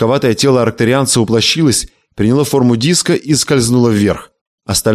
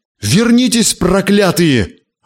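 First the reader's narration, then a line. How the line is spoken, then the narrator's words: Yelling. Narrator (Russian): орал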